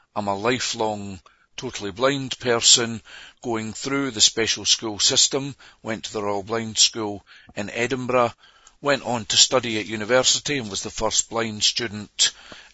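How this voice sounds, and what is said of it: Scottish-tinged New Zealand accent. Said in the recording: “as you can tell from my accent, I'm from South Auckland. Well, I live there now. I'm originally from Dundee in Scotland.”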